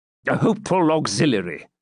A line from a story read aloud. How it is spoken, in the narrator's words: said Fitzurse impatiently